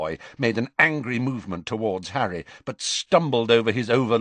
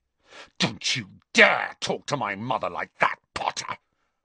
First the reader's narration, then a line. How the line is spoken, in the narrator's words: Malfoy snarled